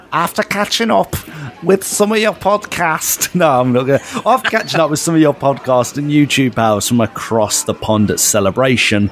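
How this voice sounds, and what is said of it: Attempted Liverpool Scouse accent. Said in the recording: “That's my attempt of a Liverpool accent, a Scouse accent”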